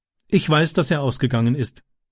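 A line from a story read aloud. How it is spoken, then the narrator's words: Plain. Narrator (German): sagte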